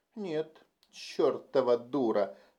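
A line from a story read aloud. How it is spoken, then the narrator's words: Furious groan. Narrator (Russian): яростно простонал Джейсон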